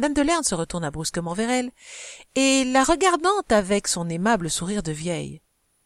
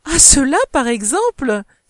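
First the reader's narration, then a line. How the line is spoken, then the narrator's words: Cheerful exclamation. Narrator (French): s'écria gaiement madame de Morescan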